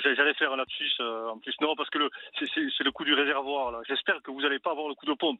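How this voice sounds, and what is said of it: Toulouse southern French accent. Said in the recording (French): “Je sens un petit accent... j'ai gardé l'accent du côté de Toulouse”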